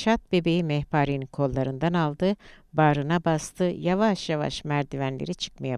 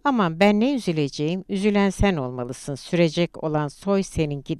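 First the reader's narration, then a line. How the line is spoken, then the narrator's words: Peevish voice. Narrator (Turkish): dedi Saraylı Hanım hırçın bir sesle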